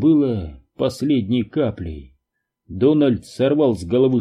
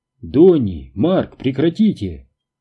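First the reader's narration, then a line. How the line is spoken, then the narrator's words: Exclamation. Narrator (Russian): воскликнул Бобби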